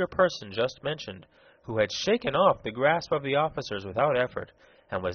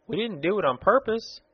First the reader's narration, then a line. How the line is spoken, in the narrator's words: exclaimed Betsy